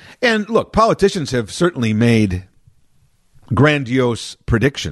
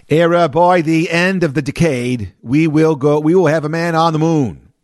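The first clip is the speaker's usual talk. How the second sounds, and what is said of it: Imitated Massachusetts accent. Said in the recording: “that's how he talked in his Massachusetts accent”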